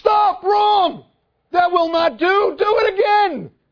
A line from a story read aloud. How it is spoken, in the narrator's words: he yelling